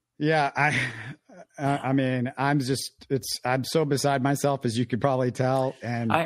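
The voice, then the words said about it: Hoarse, strained voice. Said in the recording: “I can tell in your voice that you've been yelling yourself hoarse somewhere ... I think I'm hoarse”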